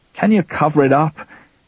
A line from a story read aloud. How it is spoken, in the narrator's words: he asked, his voice devoid of anger now